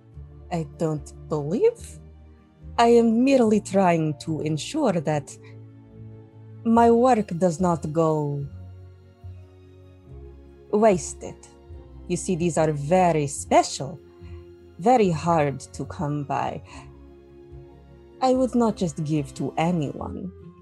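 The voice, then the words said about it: Inconsistent put-on character accent. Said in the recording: “my accent keeps going in and out”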